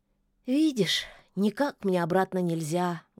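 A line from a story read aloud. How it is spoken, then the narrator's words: Sad cat. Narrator (Russian): грустно ответил кот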